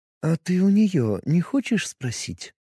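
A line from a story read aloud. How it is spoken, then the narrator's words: Soft pressing, mother. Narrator (Russian): продолжала мягко давить мать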